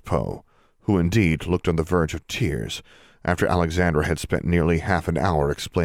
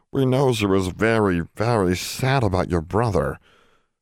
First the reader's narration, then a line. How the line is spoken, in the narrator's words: groaned in a creaky voice